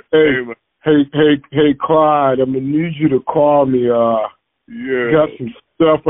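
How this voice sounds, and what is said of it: Imitates another person's voice. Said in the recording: “your best Sal impersonation”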